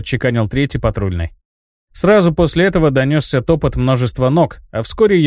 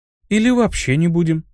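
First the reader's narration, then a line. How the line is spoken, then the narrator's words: Tender speech. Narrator (Russian): нежно проговорила Диана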